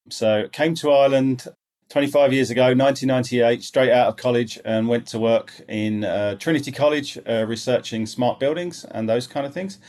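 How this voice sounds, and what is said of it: English accent. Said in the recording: “speaking with a funny accent ... I am an Englishman, which is why I'm speaking with the funny accent”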